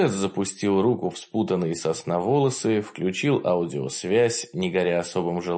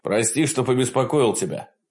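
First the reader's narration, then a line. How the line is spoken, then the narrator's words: Hurried. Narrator (Russian): продолжил Рено торопливо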